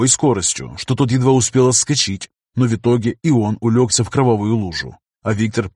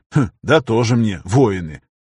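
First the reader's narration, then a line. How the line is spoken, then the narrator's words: Scoffing. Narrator (Russian): Виктор хмыкнул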